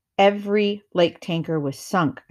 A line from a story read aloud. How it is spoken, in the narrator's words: said